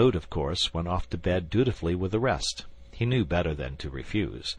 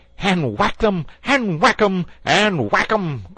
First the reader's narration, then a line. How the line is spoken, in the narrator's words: cried the toad in ecstasy